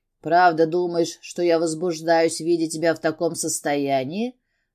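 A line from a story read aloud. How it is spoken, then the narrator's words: Growling. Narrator (Russian): зарычал я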